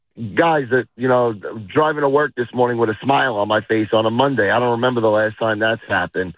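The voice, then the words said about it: Worn-out, not fully recovered voice. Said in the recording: “Excuse my voice. I still haven't gotten it fully back from Saturday.”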